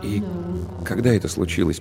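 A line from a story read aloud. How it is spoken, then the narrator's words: Quiet question. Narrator (Russian): поинтересовался он тихо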